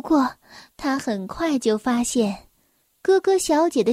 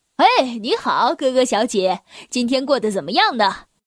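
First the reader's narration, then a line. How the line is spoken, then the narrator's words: Smiling. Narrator (Chinese): 他笑着说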